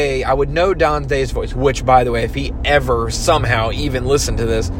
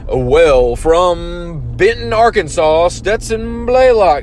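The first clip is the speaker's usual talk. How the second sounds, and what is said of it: Imitates an announcer's voice, poorly. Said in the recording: “I'm sorry for butchering that. I am not a great impersonator.”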